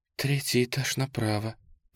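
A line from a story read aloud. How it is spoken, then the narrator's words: Young woman's whisper. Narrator (Russian): прошептала девушка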